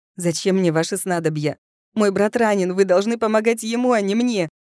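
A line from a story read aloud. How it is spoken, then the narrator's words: Tearful shout. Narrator (Russian): Крикнула я, чувствуя, как по щекам бегут горячие слезы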